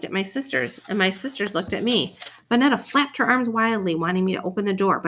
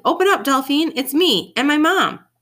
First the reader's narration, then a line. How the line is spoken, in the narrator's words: Harry Hodo said loudly